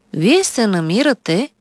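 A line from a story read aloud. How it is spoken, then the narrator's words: Calm doctor speaking. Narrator (Bulgarian): спокойно заговори лекар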